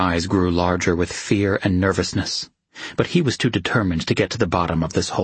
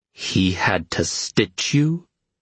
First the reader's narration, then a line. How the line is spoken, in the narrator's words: he asked, behind tightly clenched teeth